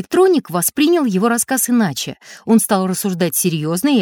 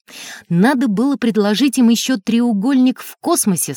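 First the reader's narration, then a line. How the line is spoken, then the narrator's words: Plain. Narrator (Russian): сказал электроник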